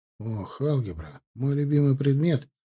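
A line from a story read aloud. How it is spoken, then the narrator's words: Mumble. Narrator (Russian): пробормотал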